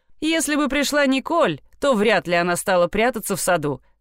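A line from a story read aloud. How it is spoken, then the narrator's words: Laughing. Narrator (Russian): рассмеялся Петр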